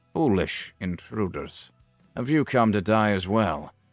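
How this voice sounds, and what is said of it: Weary, raspy old man's voice. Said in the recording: “in a weary voice, his tone slightly laced with a firm determination ... his raspy old voice”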